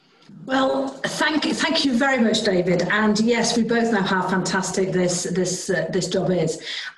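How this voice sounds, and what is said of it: Northern English accent. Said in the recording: “most of you will be able to tell from my accent that I'm not from down south”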